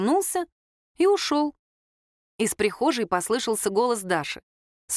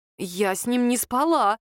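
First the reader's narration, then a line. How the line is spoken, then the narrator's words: Forced-out words. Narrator (Russian): выдавила Лера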